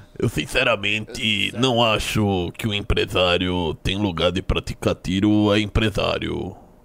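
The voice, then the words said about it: Imitates another person's voice. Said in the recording (Portuguese): “vocês acharam da minha imitação? ... De 0 a 10? Isso. 6.”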